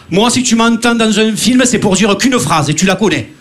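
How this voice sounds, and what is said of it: Marseille French accent. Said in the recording (French): “on entend mon accent à chaque fois... Marseillais”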